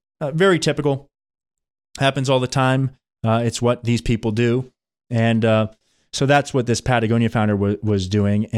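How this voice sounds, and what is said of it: Strained, failing voice. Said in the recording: “My voice is giving out here”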